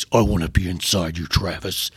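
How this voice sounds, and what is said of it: Imitates another person's voice. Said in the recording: “when I do that voice, I'm doing Courtney's voice”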